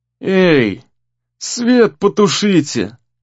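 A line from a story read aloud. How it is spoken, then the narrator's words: Sleepy displeased grumble. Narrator (Russian): Недовольно проворчал Гризли сонным голосом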